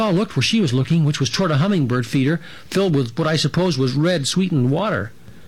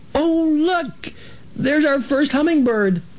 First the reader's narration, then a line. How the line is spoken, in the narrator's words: Ilona let out a little squeal right then, saying